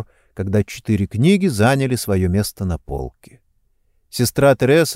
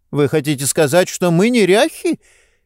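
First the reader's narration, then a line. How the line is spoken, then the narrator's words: Scoffing snort. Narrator (Russian): Сестера фыркнула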